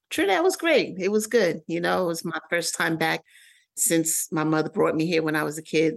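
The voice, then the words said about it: New York accent. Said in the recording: “The more you talk, I hear your New York accent.”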